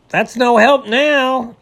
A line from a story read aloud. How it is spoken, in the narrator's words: yelled the beaver